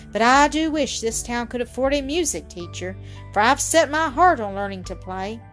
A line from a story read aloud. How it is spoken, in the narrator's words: remarked Lou with a sigh